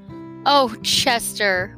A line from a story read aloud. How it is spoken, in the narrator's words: wailed Tucker Mouse